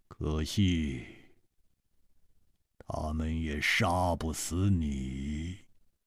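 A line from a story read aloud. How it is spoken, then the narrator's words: Cold voice. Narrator (Chinese): 他的声音冰冷，接着说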